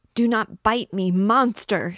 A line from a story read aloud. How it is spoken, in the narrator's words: she shrieked